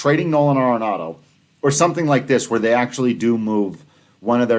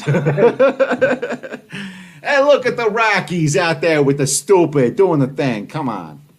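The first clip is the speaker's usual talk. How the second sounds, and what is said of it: Put-on New York accent. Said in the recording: “with a New York accent?”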